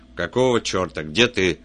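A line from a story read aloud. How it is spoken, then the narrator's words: Barked. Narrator (Russian): рявкнул он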